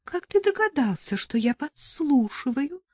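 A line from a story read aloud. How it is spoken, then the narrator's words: Thin high voice. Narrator (Russian): спросила она тоненьким голосом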